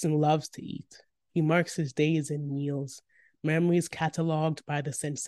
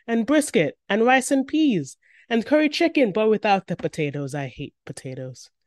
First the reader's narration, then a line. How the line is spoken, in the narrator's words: Bryson exclaims